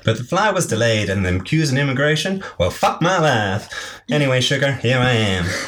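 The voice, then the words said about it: Put-on Southern US accent. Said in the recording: “She sounds like a southern laugh ... She did have a southern accent ... Southern Belle ... it's good. She is excellent.”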